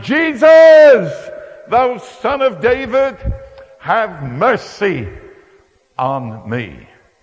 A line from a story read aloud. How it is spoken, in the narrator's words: Bartimaeus started shouting